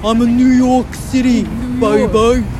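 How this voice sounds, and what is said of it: Put-on New York accent, unconvincing. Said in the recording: “That's my New York City accent ... No one's impressed by my New York City accent ... It's not impressive.”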